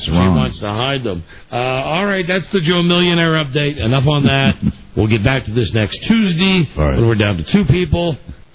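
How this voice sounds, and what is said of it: Impression of Joe Millionaire. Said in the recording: “Are you doing your guy, the disc jockey guy, or are you doing Joe Millionaire? That's your impression of Joe Millionaire.”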